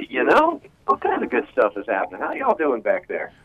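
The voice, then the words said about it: Southern US accent. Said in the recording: “I see you're already speaking with a southern accent.”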